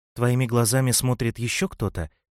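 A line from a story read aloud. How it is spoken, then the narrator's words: Calm inquiry. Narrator (Russian): спокойно осведомился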